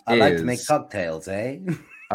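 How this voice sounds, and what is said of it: Put-on Canadian accent. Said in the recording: “your best Canadian accent”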